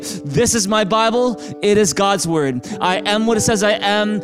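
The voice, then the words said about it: Loud, declaiming group recitation. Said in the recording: “say this out loud with me right now in a big loud voice”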